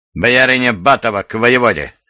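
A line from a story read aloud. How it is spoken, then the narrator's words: Menacing sharp shout. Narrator (Russian): грозно прикрикнула татарка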